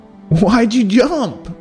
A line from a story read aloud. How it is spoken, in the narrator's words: asked Cubby through fits of laughter